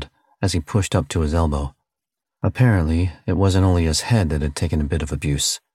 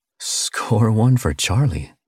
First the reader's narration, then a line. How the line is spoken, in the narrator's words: he said with a little chuckle